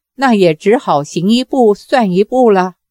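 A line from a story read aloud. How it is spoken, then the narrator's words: Calm, faint smile. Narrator (Chinese): 杨过淡淡一笑说道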